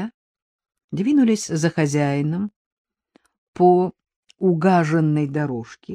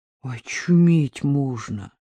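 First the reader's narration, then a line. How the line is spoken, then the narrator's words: Quiet gasp. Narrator (Russian): тихонько ахнул Дедков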